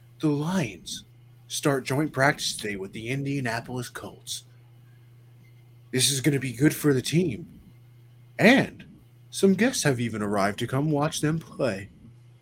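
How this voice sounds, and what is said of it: Mock sports narrator voice. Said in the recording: “narrator voice”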